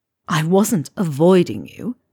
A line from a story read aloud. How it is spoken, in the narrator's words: Malfoy hisses, like he's annoyed